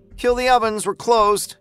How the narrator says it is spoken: Rochelle hollered

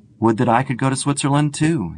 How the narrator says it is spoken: he exclaimed

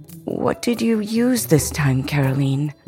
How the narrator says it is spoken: Mama asked with a sigh

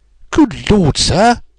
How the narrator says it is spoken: he cried with amazement on his face

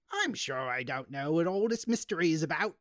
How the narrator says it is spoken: she snapped

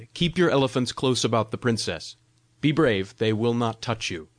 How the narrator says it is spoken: I cried

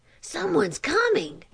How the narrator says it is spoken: whispered Chot

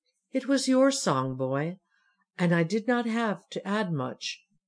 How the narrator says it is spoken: said the monk kindly

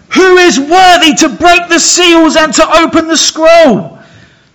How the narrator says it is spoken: He shouts at the top of his lungs

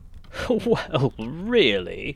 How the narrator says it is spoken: he cried, and then he choked, and laughed again

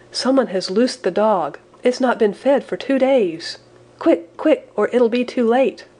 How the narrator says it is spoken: he cried

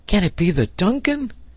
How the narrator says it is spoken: he cried

